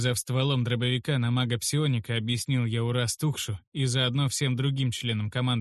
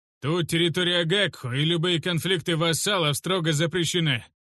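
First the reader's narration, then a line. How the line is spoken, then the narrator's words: Loud barking snap. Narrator (Russian): громко рявкнул Урастухш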